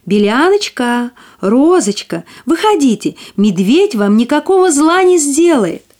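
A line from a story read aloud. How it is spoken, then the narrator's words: Shouting. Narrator (Russian): крикнула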